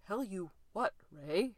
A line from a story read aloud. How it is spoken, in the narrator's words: Fraser said shakily